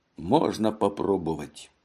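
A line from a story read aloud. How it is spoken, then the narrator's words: Muttered. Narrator (Russian): пробормотал он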